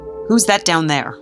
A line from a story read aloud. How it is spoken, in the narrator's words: the Duke barked